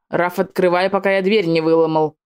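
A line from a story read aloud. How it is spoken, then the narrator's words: Menacing demand. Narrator (Russian): Грозно потребовал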